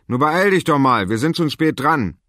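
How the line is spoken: Father calling out. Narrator (German): rief Vater

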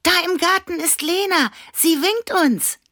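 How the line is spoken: Call. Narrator (German): rief Annabella

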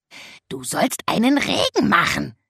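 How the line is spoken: Reproachful croak. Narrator (German): krächzte er vorwurfsvoll

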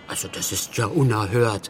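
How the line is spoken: Murmured. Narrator (German): murmelte Muff

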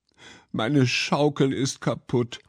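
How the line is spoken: Sobbing child. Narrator (German): schluchzte das Kind

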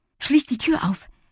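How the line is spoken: Breathless reply. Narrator (German): gab Lilli atemlos zurück

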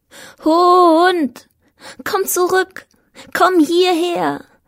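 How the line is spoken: Repeated calling into snow. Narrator (German): rief ich, immer und immer wieder in die Schneeluft hinein

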